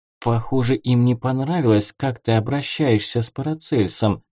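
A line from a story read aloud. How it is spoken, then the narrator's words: Whispered. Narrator (Russian): шепнула Магда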